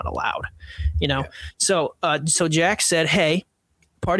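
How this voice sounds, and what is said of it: Usual voice. Nothing is said of it.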